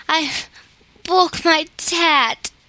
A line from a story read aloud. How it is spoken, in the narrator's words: sobbed Mary